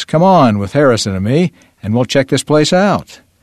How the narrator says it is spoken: Mike raised his voice

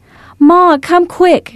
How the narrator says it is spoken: She yelled when she was near enough to be heard over the deafening sound of the crickets

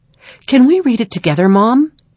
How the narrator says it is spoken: Aaron asked excitedly

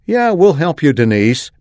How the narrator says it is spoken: Melanie called out

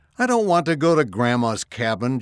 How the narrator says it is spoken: Jacob cried

